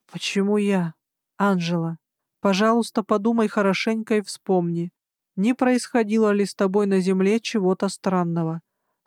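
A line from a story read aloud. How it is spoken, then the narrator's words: Plain. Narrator (Russian): спросил Эдвилл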